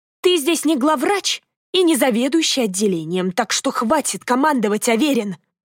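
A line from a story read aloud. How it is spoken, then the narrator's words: Catlike hiss. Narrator (Russian): Ольга зашипела кошкой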